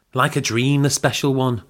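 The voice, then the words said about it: Inauthentic put-on Manchester accent. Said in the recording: “What accent is that? ... I'm just playing with it. Manchester. ... an accent from the place they're from that's so inauthentic ... I thought it was from Liverpool.”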